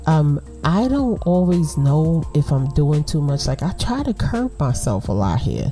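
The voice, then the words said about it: New York Brooklyn accent. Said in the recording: “this New York City accent, this Brooklyn accent,”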